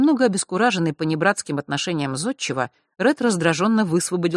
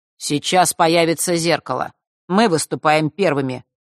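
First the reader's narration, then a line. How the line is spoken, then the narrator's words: Declared coldly. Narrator (Russian): холодно заявил он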